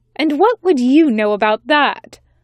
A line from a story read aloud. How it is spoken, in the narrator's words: snapped the angel, whose name was Ridwith